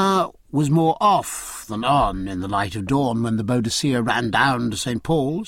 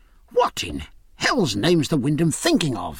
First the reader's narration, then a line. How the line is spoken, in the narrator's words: he cried